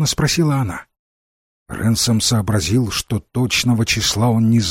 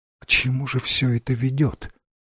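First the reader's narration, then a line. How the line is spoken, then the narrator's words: Quiet, to herself. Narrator (Russian): тихо сказала королева, обращаясь скорее к себе, чем к Рэнсому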